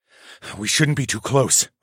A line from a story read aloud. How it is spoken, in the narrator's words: I muttered